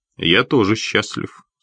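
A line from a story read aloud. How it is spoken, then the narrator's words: Calm reply. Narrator (Russian): спокойно ответил Хитклифф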